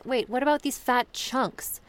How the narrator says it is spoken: the girl exclaimed

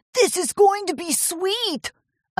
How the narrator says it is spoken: a tall royal blue stallion yelled to his pack of buddies

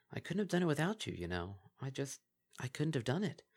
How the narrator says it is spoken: in a softer tone of voice added

